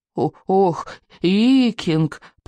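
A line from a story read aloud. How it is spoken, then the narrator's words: Moaning. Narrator (Russian): простонал Беззубик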